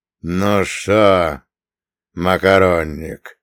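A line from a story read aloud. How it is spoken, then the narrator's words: Drawling. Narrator (Russian): протянул он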